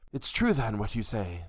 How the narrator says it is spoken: the captain breathed

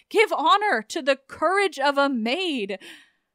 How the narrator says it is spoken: he cried

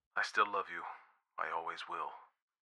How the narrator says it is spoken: he said softly

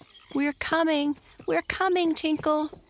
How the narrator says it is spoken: he cried

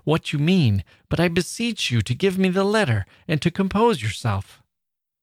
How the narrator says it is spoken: cried I, half frightened

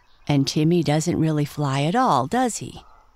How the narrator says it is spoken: asked Jimmy Skunk

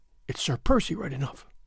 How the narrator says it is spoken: she murmured

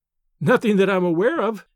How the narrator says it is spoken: said Letty, laughingly, although she was fibbing

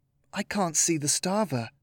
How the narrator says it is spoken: he whispered

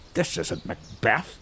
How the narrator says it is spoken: scoffed Connery

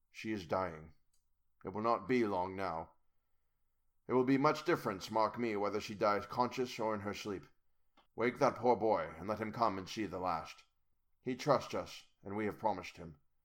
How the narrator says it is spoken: said calmly

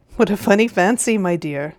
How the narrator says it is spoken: said Uncle Andrew with a laugh

